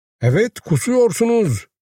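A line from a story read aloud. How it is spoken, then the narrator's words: Cried out. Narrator (Turkish): diye haykırdı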